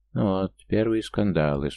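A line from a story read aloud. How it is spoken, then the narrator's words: Calm. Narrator (Russian): спокойно прокомментировал Арвент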